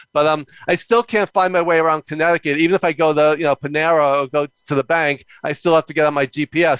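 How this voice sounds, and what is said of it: Fast-talking New York accent. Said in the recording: “I'm a native New Yorker, as you can probably tell by how fast I talk and my ... accent.”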